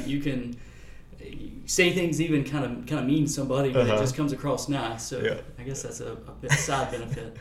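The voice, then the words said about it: Southern American drawl. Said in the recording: “you got that little Southern draw”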